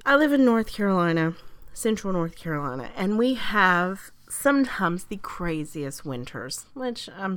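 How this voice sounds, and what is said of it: Congested voice from a cold. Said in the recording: “as you can tell, I have a bit of a cold”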